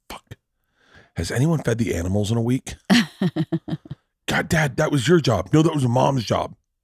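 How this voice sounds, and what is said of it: Imitates other people's voices. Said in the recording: “is my impression of me and George Riley at your funeral”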